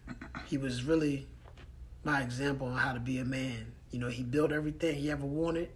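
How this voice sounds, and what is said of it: Faded, tearful-sounding voice. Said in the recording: “my voice sounds a little, you know, faded because, you know, I shed a little tears and I'm a little upset”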